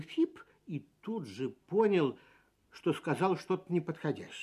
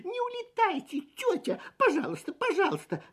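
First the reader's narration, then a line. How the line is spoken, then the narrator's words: Desperate squeak. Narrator (Russian): отчаянно пискнул Фип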